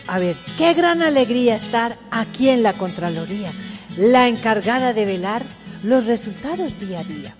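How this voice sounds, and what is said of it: Sing-song intoned verse recitation. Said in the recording (Spanish): “con entonado acento”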